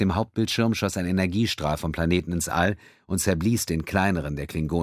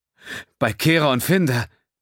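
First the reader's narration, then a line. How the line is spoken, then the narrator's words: Frightened gasp. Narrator (German): keuchte Xef erschrocken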